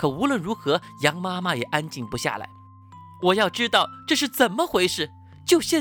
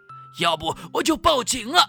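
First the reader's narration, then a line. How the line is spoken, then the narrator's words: Exasperated shout. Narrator (Chinese): 他终于忍不住喊道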